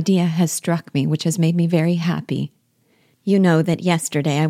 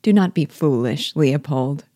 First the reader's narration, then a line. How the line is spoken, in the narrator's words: replied she